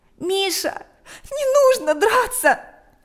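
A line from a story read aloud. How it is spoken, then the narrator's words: Tearful. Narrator (Russian): произнесла она сквозь слезы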